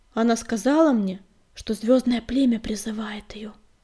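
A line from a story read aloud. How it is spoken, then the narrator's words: Sigh. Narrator (Russian): вздохнул Огнегриф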